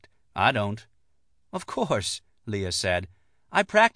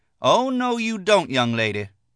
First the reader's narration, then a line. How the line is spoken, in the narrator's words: Lucy said loudly